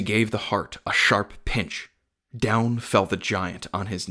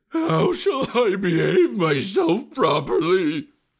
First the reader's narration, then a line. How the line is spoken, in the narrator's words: he asked, whimpering